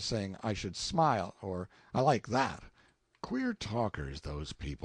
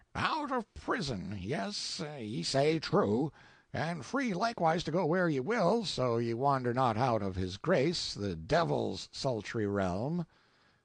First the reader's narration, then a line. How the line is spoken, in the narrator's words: The witty officer made a rasping noise in his throat, and said